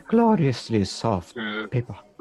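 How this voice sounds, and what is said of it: Soft Scottish accent. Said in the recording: “in a slightly soft Scottish accent”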